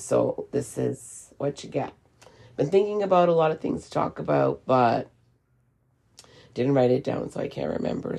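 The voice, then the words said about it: Hoarse, partly lost voice. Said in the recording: “my voice sounds like this because of allergies and also losing my voice.”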